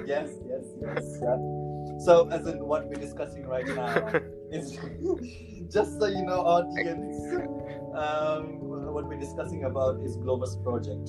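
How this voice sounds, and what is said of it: Nepali accent. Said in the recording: “my Nepali accent”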